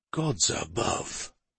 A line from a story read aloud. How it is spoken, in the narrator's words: King Ulred rose to his feet as he whispered